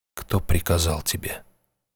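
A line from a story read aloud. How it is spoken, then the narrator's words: Muffled, hollow. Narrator (Russian): глухо произнес странник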